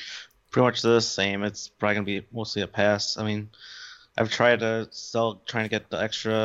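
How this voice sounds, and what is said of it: Usual voice. Nothing is said of it.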